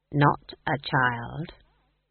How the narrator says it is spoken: said Granny quietly

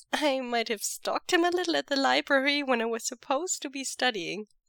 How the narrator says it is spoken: Mo Xuanyu giggles

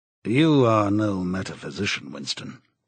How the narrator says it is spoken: he said

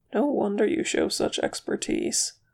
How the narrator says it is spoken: murmured Legolas

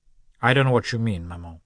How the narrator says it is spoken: the son replied coldly

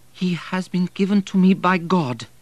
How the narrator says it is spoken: exclaimed

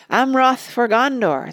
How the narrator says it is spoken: they cried

